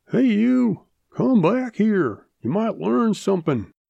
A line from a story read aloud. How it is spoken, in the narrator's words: Old uncle hollers after him